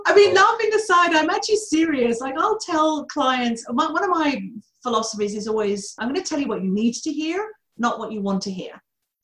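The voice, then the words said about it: Distinct accent. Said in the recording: “Oh, my accent ... It is such a distinct voice”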